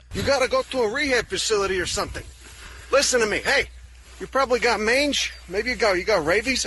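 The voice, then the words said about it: Strong Chicago accent. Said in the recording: “now he's all of a sudden he's very Chicago... All of a sudden the accent.”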